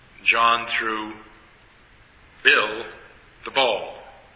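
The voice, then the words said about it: Loud stress on Bill and ball. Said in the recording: “I emphasize both Bill and ball. ... saying a word or a portion of a word in a sentence louder than its neighbors”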